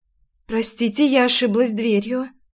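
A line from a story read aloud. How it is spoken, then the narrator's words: Strained, choked out. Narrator (Russian): сперто выдавила я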